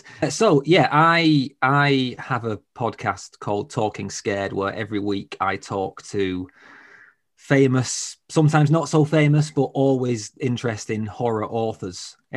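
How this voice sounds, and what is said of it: Strong northern English accent. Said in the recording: “I'm from the north of England, as you can tell. ... my accent. It's pretty strong.”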